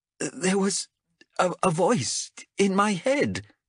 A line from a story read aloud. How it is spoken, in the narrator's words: she gasped